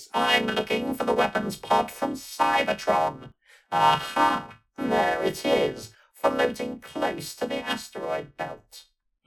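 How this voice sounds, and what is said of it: Triumphant tinny robot voice. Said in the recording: “with a note of triumph in his tinny voice”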